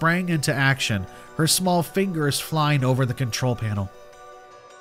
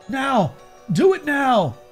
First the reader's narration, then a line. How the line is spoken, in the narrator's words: Fighting back the wave of nausea and guilt, I shouted to Sarah